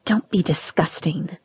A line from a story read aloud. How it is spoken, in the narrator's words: I whispered